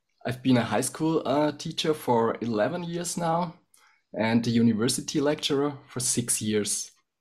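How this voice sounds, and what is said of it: Voice sounds a bit funny, sick. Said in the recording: “you might hear it already. My voice might sound a bit funny due to a flu.”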